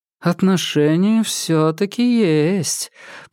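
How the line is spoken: Drawled. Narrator (Russian): протянула Нарцисс

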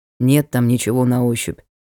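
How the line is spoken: Gloomy. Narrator (Russian): мрачно сказал Ник

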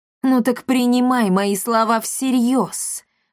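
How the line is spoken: Angry witch's hiss. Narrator (Russian): злобно прошипела колдунья

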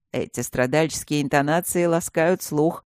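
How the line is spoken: Mocking reply. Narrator (Russian): насмешливо отозвался он

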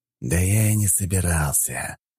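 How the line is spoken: Hiss, deep sigh. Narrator (Russian): прошипел он и глубоко вздохнул

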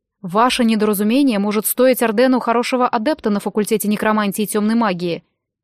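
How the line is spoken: Sharp. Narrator (Russian): резко произнес Глом

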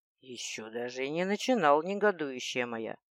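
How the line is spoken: Soft, heartfelt, carrying voice. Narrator (Russian): Армейд говорил негромко, проникновенно, но его слова самым невозможным образом слышали все вокруг

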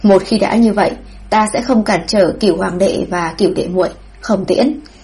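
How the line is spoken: Stunned, then laughing. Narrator (Vietnamese): Vũ Hoàng Hãn ngẩn ra, rồi lại lập tức bật cười

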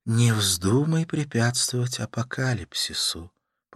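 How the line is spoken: Whisper. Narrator (Russian): прошептала

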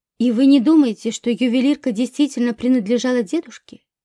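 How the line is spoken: Plain. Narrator (Russian): спросила Мира

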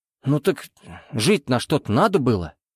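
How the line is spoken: Muttered. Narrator (Russian): буркнул Тулишевский

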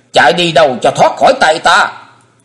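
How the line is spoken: Hissing shriek. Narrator (Vietnamese): Kim Hoa Điển Mẫu rít lên

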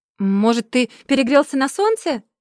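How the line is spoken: Offended shout. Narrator (Russian): обиженно закричал первый

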